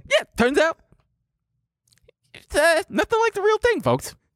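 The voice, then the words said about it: High-pitched celebrity impression. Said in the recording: “good Jay Leno impression... You got to go high... You're getting like pretty Tyson-y”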